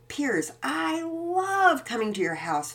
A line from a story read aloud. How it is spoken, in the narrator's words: Finn Wells exclaimed